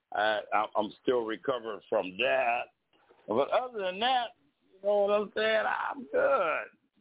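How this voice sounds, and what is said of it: Odd-sounding voice while ill. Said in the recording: “I had a little bout with COVID last week. That's why my voice sounds so crazy tonight.”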